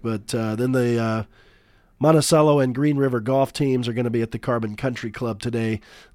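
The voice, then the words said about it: Unwell, poor-quality voice. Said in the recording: “I do apologize for the voice quality. I'm hoping by next week I can feel a little bit better and sound a little bit better on the radio”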